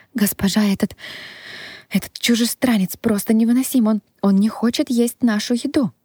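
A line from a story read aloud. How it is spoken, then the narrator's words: Sobbing. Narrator (Russian): рыдала девушка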